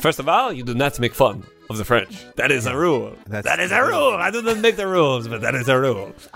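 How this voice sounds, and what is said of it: Put-on French accent. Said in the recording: “doing a French accent”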